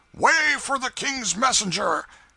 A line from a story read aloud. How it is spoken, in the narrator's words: a voice shouted